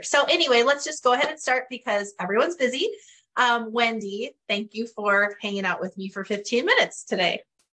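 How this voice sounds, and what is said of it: Northern Canadian accent. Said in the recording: “I will probably forever have my Northern Canadian accent”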